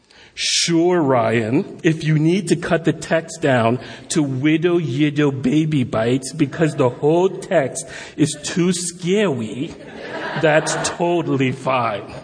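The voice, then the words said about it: Sarcastic reading voice. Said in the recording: “I'm going to do sarcasm because it definitely was sarcastic. I can't do a Scottish accent”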